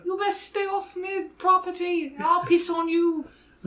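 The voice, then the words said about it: Put-on Cockney street urchin accent. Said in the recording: “Cabbage often gets a Cockney accent from us ... he's a rambunctious British street urchin”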